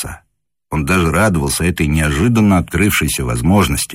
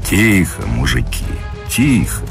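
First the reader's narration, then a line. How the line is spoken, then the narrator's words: Low rumbling voice. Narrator (Russian): прогудел Юшин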